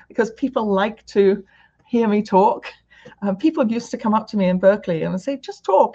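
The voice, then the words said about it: British accent. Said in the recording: “coming from the UK to America, um, the other, other asset that I think has helped me is my accent”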